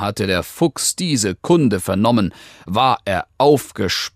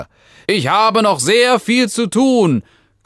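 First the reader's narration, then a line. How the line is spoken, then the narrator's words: Fox panting from afar. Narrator (German): keuchte der Fuchs aus der Ferne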